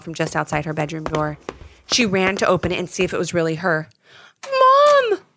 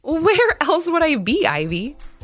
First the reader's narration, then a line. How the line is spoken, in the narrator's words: giggled her mom